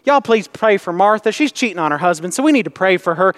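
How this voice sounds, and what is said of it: Old country lady accent. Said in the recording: “That's my little old lady in the country accent”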